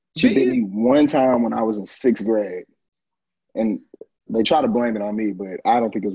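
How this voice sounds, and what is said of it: Country accent. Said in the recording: “I'm a little country sometimes. That with my accent.”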